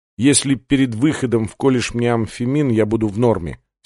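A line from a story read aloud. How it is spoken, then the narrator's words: Plain. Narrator (Russian): сказал Сандерс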